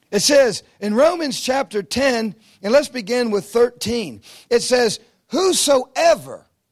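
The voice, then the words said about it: Noticeable accent, speaking slowly. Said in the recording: “I'll speak slow because I know my accent is a little tricky for you.”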